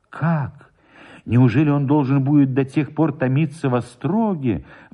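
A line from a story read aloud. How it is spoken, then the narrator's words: Sorrowful exclamation. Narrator (Russian): воскликнула горестно Мария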